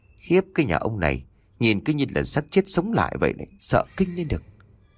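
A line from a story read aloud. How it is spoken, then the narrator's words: Muttering. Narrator (Vietnamese): gã mê lẩm bẩm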